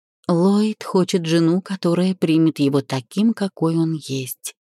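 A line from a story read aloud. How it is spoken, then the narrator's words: Quiet. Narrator (Russian): тихо сказала Зельда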